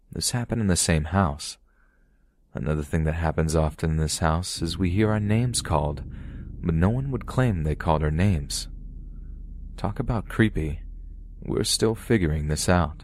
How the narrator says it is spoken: He stated calmly

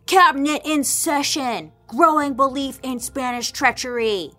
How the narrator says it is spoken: like all caps yelling

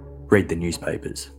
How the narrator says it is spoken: the caller said gruffly

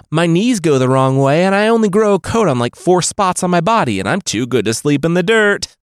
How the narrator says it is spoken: Rabbit Boy called out

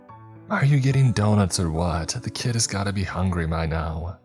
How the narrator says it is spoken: Navia moaned

